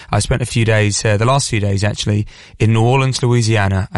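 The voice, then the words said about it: Hoarse, croaky deep voice. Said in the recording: “my voice is a little bit hoarse. It does feel a little bit croaky, a little bit Barry White-esque”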